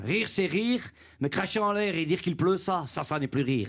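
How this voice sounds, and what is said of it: Put-on Brussels Belgian accent. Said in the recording (French): “l'accent belge? ... ça dépend de quel accent, mais celui de Bruxelles, je le connais un peu”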